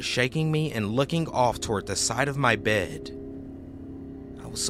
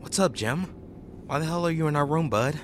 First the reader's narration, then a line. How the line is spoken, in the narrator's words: I was still pretty out of it and just calmly said to him